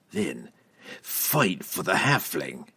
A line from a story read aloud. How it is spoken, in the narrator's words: Entreri growled